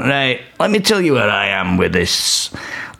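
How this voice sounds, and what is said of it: Duncan Bannatyne impression. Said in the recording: “my mate did such a good impression of Duncan Bannatyne”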